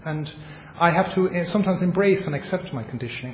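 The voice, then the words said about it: Irish accent. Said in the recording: “my Irish accent ... I don't have a free will around my Irish accent”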